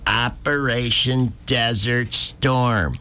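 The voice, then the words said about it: An impersonation. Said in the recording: “good impersonation”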